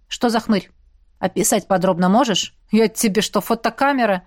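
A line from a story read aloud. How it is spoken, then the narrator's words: Eagle's snort. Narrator (Russian): хмыкнул орел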